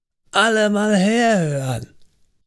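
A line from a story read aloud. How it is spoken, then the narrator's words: Very loud shout. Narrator (German): rief er so laut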